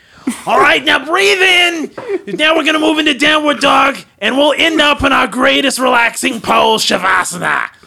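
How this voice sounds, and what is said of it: Grating northeastern accent. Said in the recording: “that really kind of like grating northeastern accent ... Like imagining like Gilbert Godfrey being a yogi.”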